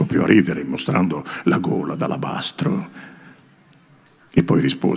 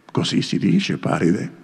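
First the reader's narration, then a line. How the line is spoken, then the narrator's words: Plain. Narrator (Italian): lei disse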